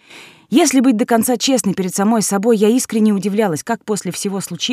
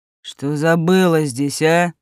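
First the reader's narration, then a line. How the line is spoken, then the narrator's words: Growling after pause. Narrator (Russian): спустя короткую паузу прорычал он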